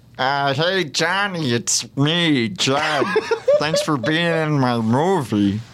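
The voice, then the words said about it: Judd Apatow impression. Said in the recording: “really good Judd impression”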